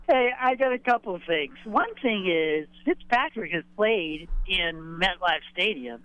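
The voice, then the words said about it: Boston accent. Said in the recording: “Stick to the Boston accent. It's what you're good at.”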